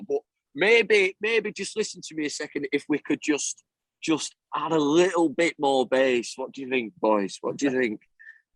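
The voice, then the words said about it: Imitates a Manchester bandmate's accent. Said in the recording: “your bandmate that's from Manchester, what does he sound like? ... He can do a good impression ... I'm doing poorly, right? This is how he talks.”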